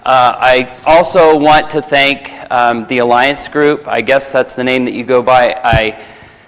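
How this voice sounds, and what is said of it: Hoarse, dry, fading voice. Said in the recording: “I'm losing my voice, ... So I'm a little dry this evening”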